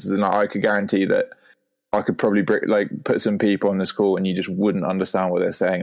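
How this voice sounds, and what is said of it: Posh, well-educated English accent. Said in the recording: “is yours close to the royal family accent? It's it's, it's in that direction for sure ... proper, but proper English ... well posh ... it's just a very classically, I don't know, well educated, like posh accent”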